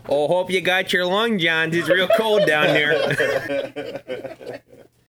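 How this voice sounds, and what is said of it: Put-on Kenosha Wisconsin accent. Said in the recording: “a guy with a Kenosha accent.”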